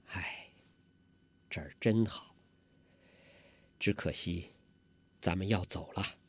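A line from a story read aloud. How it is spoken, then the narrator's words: Sighing. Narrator (Chinese): 黄蓉这才叹了口气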